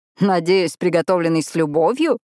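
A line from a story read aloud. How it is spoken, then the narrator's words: Laughing. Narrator (Russian): рассмеялся Коннор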